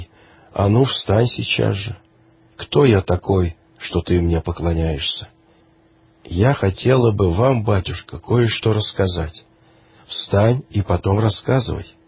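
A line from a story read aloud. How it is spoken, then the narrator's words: Stern. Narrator (Russian): полагая, что женщина почитает его за святого, строго сказал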